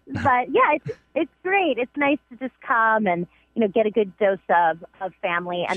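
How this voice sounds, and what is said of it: Strong Bronx New York accent. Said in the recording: “My accent has come back, like, super strong ... all of a sudden I sound like, you know, back in the Bronx”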